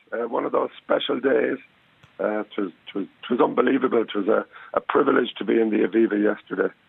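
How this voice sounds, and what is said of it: Hoarse, strained voice. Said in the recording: “have you any voice left? ... I don't think so ... I'm a little bit hoarse.”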